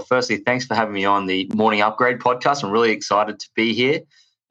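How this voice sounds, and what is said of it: Australian accent. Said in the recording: “As you can tell from my accent, I am from Australia”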